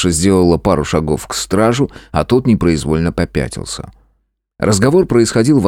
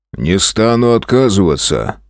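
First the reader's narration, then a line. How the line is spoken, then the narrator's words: Calm. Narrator (Russian): спокойно сказал страж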